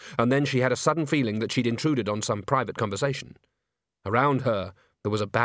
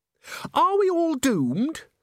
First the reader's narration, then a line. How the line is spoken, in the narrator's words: squeaked Christine